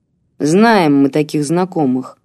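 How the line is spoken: Calmer grumble. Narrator (Russian): пробурчал крепыш, однако уже спокойнее

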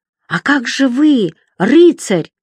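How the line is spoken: Bewildered shout. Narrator (Russian): растерянно кричал рыжеусый

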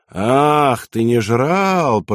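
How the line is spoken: Drawling. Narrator (Russian): протянул гитлеровец

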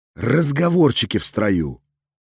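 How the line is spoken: Serene calm voice. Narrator (Russian): напомнил я безмятежным голосом

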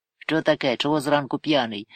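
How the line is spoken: Stern teacherly question. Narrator (Ukrainian): суворо запитав гість, наче вчитель учня

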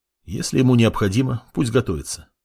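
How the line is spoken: Calm reply. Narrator (Russian): спокойно ответил противник

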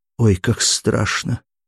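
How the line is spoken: Quiet, frightened. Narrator (Russian): тихо проговорила Анастасия

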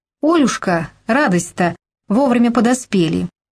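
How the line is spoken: Loud joyful greeting, mother. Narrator (Russian): Громко приветствовала Прасковья, мать этой желанной гости

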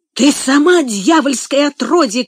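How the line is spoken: Shouted. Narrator (Russian): крикнул он

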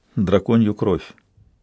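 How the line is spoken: Quiet. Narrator (Russian): Он ... тихо сказал

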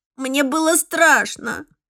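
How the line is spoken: Sobbing. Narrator (Russian): всхлипнул

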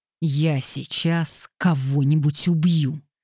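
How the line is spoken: Through gritted teeth. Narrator (Russian): процедил Уэстклифф

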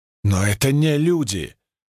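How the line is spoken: Highly emotional exclamation. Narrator (Russian): очень эмоционально воскликнула Кара

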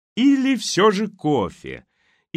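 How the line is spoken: Cozy, contented laugh. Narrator (Russian): И хозяйка рассмеялась уютным, довольным смехом

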